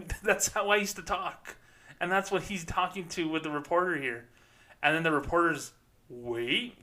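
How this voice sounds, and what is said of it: Usual voice. Nothing is said of it.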